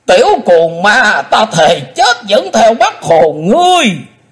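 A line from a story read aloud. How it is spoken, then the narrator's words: Hateful shout, old man. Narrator (Vietnamese): lão lùn quát lên giọng căm hận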